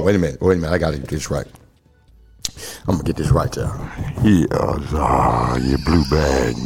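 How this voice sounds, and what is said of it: Usual voice. Nothing is said of it.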